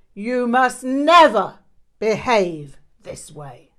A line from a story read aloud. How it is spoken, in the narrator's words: he roared